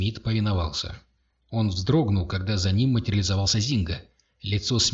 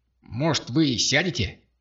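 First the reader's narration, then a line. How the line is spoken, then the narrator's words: Hissed. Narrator (Russian): зашипел Зинга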